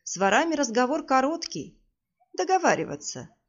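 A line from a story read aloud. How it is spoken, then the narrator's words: Calm remark. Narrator (Russian): спокойно заметила некая личность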